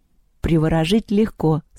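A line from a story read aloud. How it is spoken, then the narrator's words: Calm. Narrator (Russian): спокойно сказала Лёля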